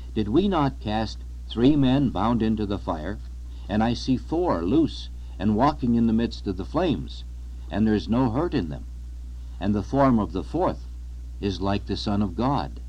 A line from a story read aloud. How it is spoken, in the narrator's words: The king was astonished and exclaimed